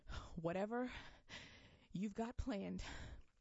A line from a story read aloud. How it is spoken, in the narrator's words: choked between breaths